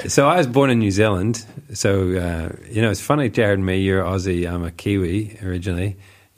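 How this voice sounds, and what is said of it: Mixed Irish and New Zealand accent. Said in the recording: “your tones and lilt ... they're not just Irish ... I've got a funny accent”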